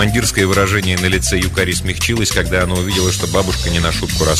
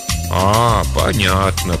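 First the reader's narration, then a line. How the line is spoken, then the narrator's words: Drawn-out elderly voice. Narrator (Russian): протянула бабушка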